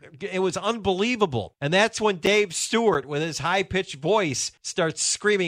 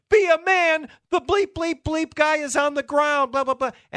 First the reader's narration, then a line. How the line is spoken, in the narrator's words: La Russa starts screaming again